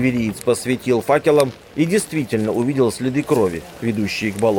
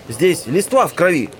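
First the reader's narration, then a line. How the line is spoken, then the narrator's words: Shout. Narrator (Russian): закричал кто-то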